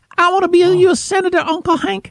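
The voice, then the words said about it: Imitates Luann's Southern cartoon voice. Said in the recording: “she sounds like Luann from King of the Hill. She sounds like Luann from Manger Babies, Uncle Hank. ... That's what she sounds like. ... Against her for having a Southern accent.”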